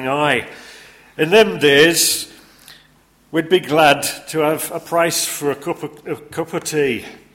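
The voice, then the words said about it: Put-on Yorkshire accent. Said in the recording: “try my Yorkshire accent in the different character voices”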